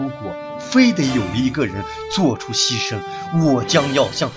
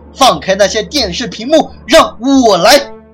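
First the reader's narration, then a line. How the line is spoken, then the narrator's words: Loud shout. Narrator (Chinese): 日本 AV 大喊一声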